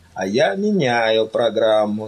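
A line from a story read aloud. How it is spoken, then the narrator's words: Plain. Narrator (Russian): сказал Фэллон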